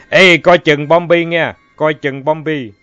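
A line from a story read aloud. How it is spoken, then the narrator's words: Young man yelling. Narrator (Vietnamese): Anh Giao Liên, một cậu thanh niên non nhẽo ... la thét trong màn khói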